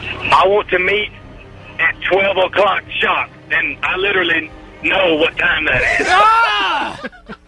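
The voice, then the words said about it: Movie villain character voice. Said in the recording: “Accent? ... I just really like The Dark Knight Rises, and I thought I would try the voice”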